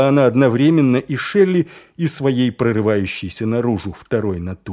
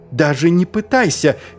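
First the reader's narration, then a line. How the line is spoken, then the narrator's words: Shouted. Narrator (Russian): крикнула Ангва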